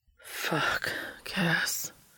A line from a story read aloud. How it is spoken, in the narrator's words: Dean whispered, sounding significantly more ruffled now than he had 15 minutes ago